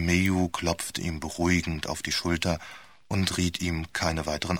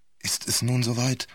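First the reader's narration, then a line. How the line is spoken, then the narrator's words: Anxious question. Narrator (German): fragte Vohl ängstlich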